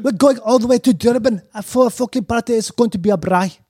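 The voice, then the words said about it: Put-on accent, admittedly bad version. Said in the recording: “it is a cool accent ... I think I can bad version of ... I've heard it's the hardest of the the English-speaking accents”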